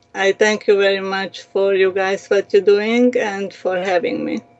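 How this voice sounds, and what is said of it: Non-native English accent. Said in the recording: “I have accent because it's not my first language”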